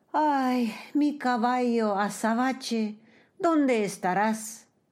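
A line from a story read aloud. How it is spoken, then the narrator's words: Sighing, dismembered boy's body. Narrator (Spanish): una parte del cuerpo despedazado del muchacho dio un suspiro y dijo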